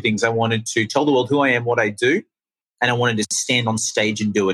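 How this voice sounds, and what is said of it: Australian accent. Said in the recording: “I'm from Australia. That's the accent. If anyone's curious, it's not London. It's not New Zealand. It's Australian.”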